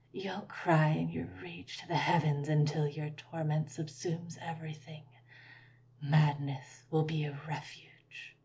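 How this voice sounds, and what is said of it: Faint, nearly whispering voice. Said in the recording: “her voice fainter ... She was virtually whispering by the time she was done.”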